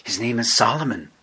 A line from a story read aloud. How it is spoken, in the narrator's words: Victor whispered